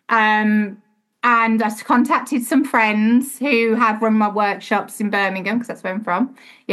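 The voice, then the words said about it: Slight Birmingham accent. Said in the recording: “You heard my little twang then, didn't you, Birmingham?”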